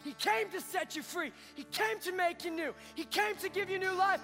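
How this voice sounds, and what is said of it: Yelling, loud preaching voice. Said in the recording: “this guy just yells at us the whole time”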